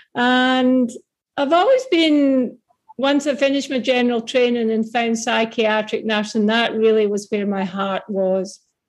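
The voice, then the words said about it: Scottish accent. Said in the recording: “despite the accent, I am now more Australian than Scottish”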